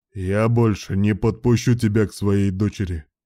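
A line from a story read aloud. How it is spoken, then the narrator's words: Loud declaration. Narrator (Russian): громко заявил его милость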